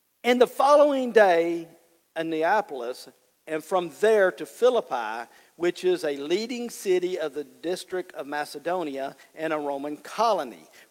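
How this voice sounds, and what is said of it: Cajun accent. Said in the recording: “This Cajun accent just won't do it”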